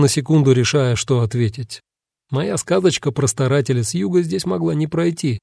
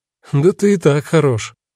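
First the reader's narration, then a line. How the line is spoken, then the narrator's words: Wry snort. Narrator (Russian): хмыкнул Тикль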